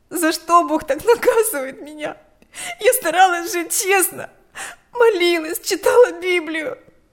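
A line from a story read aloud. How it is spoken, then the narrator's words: Shaking with sobs. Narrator (Russian): вздрагивала от рыданий Лика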